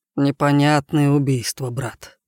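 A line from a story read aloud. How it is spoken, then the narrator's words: Grumbling. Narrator (Russian): пробурчал Мишка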